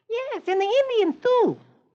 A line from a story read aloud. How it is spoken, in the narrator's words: little Michael chirps